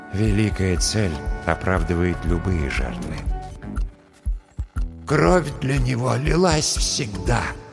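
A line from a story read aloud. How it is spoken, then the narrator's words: Dead apothecary's sad whisper. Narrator (Russian): грустно прошептал в моей голове голос мертвого аптекаря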